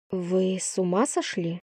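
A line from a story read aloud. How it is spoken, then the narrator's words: Gentle question. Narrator (Russian): ласково спросила я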